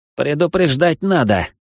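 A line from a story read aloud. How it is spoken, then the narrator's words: Grumbling. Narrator (Russian): пробурчал плинту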